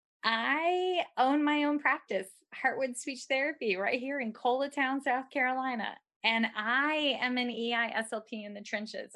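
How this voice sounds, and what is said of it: Southern twang accent. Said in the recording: “Let my little twang roll right out.”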